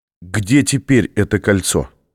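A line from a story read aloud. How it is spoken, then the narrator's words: Plain. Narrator (Russian): спросил Беккер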